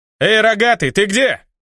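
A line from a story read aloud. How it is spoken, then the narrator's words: Echoing yell. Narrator (Russian): Заорал я в провал, и многократно умноженное эхо ответило мне гулом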